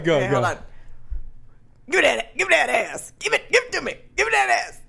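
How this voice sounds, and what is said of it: Imitates an old Black man's voice. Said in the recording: “her impression of an old black man”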